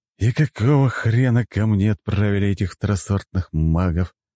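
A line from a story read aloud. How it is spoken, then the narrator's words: Sigh. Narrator (Russian): вздохнул он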